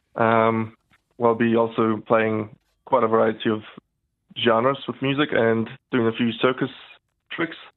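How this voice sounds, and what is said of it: New Zealand accent. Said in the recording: “I love the Kiwi accent.”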